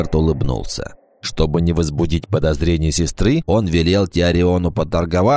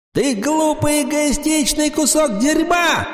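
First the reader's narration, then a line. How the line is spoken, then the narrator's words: Screaming. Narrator (Russian): закричала Вала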